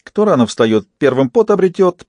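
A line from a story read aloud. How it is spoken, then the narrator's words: Squeaky. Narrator (Russian): пропищал Фист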